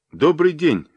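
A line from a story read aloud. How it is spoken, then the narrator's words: Cheerful. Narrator (Russian): весело сказал Дронго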